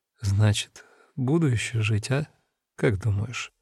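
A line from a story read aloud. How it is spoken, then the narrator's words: Quiet question, mother. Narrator (Russian): Мама Маринки спрашивает тихо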